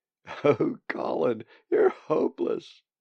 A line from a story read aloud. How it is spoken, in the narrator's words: she giggled